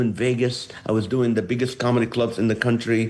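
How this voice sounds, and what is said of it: Usual voice. Nothing is said of it.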